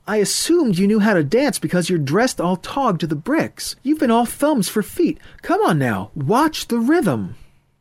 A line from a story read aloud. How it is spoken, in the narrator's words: Heidi yelled over the noise